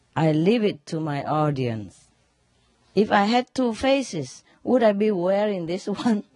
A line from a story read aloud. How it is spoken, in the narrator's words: without hesitation, Lincoln calmly replied